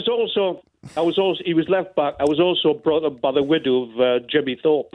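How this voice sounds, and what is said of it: South Tyneside accent, like James Bolam. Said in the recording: “you sound a little bit like James Bolam ... we both come from South Tyneside”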